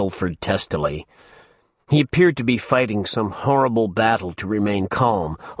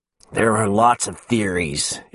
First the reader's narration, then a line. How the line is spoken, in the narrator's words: Ilford went on, practically through gritted teeth